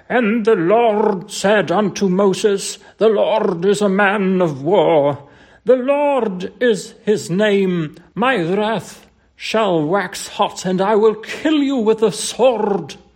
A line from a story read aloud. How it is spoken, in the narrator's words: the minister, he bellowed